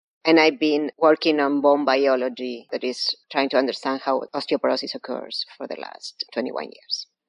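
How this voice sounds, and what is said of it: Argentine-accented English. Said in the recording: “You may infer by my accent, I was not born here. I was born in Argentina.”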